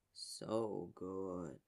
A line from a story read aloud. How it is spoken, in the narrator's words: Yager murmured, voice almost a hum